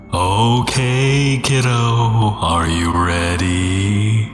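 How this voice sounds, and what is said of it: Loopy ghost voice. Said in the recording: “in a loopy ghost voice.”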